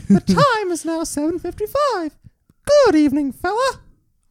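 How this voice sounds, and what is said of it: Imitated cartoon mouse character voice. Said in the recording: “my Mickey Mouse impression.”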